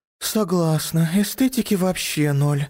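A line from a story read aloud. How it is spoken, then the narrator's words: Sighing. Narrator (Russian): вздохнула Роза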